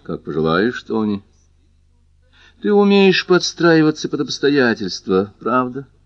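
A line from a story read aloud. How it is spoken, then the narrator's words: Calm remark. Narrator (Russian): спокойно заметила она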